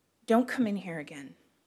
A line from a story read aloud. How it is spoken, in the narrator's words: Fee whispered